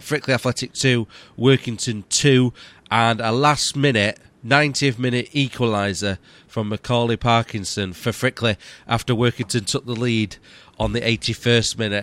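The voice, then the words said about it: Sick, unwell-sounding voice. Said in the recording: “As you might hear in my voice, I'm a bit. ... I've got bugs too now, and I feel really terrible and really ill.”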